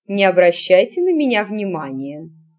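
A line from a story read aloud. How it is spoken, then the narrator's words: Calm reply. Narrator (Russian): спокойно отозвалась матушка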